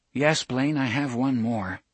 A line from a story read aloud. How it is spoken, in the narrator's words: Jake said